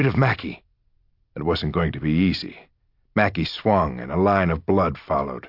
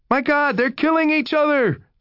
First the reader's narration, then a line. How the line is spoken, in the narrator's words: Someone cried